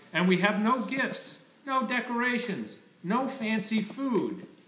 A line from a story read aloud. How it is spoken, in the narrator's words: cried